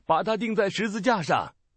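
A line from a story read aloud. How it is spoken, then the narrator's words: Crowd shouting. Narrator (Chinese): 他们喊着说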